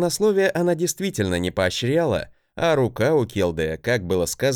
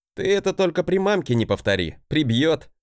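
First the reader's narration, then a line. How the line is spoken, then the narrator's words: Laughing. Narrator (Russian): хохотнул я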